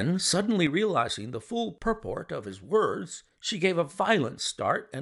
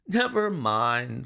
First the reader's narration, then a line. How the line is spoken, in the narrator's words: said Holmes, laughing